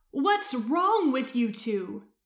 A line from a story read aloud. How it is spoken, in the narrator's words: he said, his voice shrill